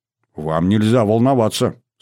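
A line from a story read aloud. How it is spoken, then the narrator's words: Stern. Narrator (Russian): строго сказал я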